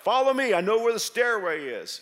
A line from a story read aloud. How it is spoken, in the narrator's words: He had yelled out